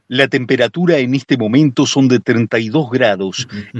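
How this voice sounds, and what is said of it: Radio announcer voice. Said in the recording (Spanish): “voz de locutor, voz de FM”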